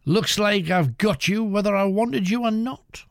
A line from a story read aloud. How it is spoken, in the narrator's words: Rosa cried